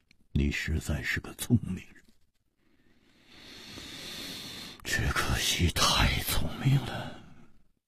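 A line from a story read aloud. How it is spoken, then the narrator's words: Long sigh, leisurely. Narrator (Chinese): 吴华长长地叹了一口气，悠然说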